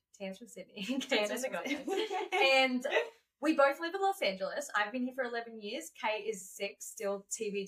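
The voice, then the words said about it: Australian accent. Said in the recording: “we both have accents ... So we both have accents. We're both originally from Australia.”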